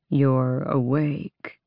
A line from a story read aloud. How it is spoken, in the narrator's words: he said, willing his voice to the drawl of the Volg king